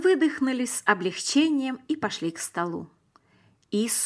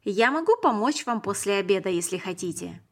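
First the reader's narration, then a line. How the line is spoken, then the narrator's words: Plain. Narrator (Russian): сказал Иисус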